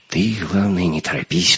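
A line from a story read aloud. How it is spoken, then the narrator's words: Whispering. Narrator (Russian): прошептал Леха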